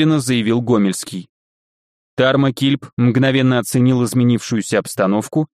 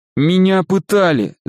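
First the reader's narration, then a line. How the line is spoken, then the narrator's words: Cowering nasal whine. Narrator (Russian): загнусавил съежившийся Лисицын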